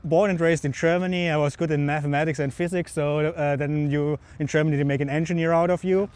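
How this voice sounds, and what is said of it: German accent. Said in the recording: “You picked a German accent”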